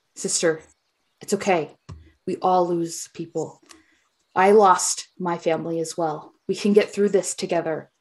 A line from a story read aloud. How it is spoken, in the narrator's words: Ari's going to talk calmly to her and she's going to say